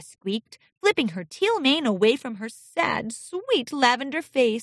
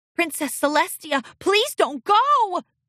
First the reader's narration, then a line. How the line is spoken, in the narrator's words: cried Sandy Shore